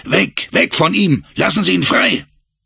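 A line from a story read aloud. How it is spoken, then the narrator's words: Shouted in French. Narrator (German): schrie, wieder auf Französisch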